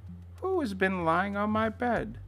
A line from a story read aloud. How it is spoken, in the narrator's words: everyone cried out